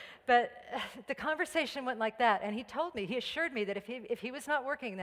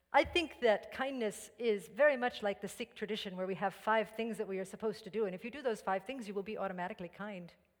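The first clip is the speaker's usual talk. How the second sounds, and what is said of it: Fake Indian accent. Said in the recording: “speaking in a fake Indian accent... I'm a mimic”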